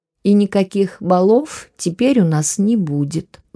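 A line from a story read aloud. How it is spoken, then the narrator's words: Aggrieved sigh. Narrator (Russian): вздохнула о наболевшем Мария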